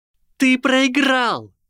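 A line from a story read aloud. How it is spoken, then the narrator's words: Shrill squeal. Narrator (Russian): завизжала Гермиона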